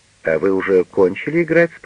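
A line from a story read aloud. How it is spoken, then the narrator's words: Plain. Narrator (Russian): спросила она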